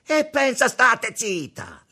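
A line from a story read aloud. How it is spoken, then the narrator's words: Yelling. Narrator (Italian): urlò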